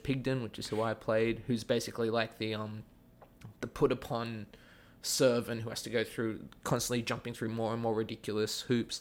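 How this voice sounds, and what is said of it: Mild Australian accent. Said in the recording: “I have an Australian accent ... my accent that I'm talking to you like right now is kind of me watering it down. It's not my full Australian.”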